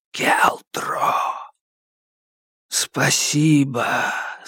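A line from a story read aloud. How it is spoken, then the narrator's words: Whispering voices. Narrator (Russian): Более свежие, те, которым крысы еще не объели губы, шептали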